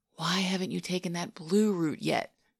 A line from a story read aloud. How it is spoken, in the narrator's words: He asked in a stage whisper